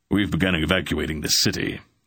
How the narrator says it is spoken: the big Raven said in his deep voice

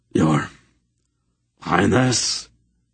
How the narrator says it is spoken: he said in a choked voice

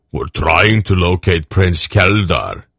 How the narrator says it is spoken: Barak rumbled to him

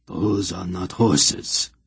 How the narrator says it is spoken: Hetar said grimly

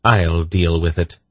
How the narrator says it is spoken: she said calmly

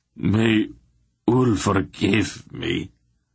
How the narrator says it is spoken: Relg groaned finally

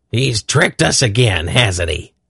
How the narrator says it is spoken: Belden growled

